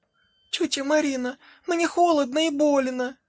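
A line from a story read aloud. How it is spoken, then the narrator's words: Whimpering. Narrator (Russian): хныкала Женька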